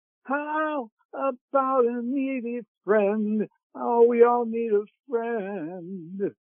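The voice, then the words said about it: Singing in a tenor voice. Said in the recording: “That was in my tenor voice. I can then go lower than that.”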